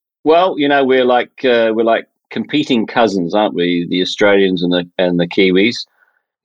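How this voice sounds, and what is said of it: New Zealand accent. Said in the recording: “your New Zealand hood ... there's an accent there. There's something that's not quite the same as mine.”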